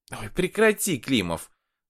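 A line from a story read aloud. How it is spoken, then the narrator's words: Guffawing. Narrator (Russian): Варя захохотала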